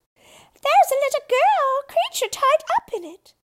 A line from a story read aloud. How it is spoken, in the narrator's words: cried another